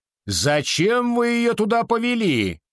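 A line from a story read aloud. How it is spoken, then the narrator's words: Professor shouting. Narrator (Russian): закричал профессор Уинчестер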